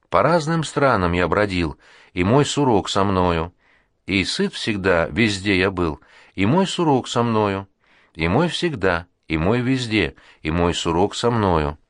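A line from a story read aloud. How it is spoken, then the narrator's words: Singing, muffled, flat voice. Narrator (Russian): И Бамбус глуховатым, бесцветным голосом запел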